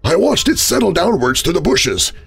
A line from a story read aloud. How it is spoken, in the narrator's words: he sobbed at me